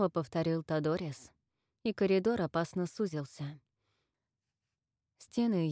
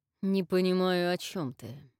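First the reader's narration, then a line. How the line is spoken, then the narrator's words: Through gritted teeth. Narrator (Russian): процедил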